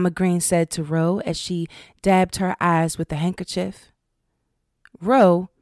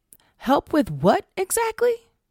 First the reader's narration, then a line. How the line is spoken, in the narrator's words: finally sputtered